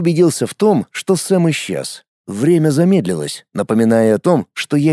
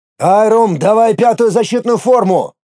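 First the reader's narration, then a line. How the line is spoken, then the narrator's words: Inner panicked shout. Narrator (Russian): прокричал я про себя, начиная понемногу паниковать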